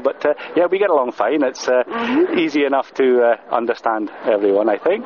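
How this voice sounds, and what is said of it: Scottish accent with a lilt. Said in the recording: “a Scottish accent ... As Scots, we speak the English language, but with a Scots lilt ... I like Scottish accent.”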